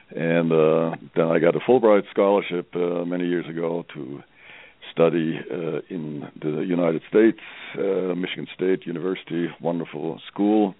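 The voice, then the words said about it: German accent. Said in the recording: “I'm from Germany, you may hear that from my accent.”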